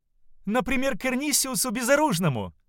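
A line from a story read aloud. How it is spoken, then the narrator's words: Exclaiming. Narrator (Russian): воскликнула служанка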